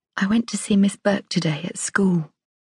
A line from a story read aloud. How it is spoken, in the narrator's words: whispered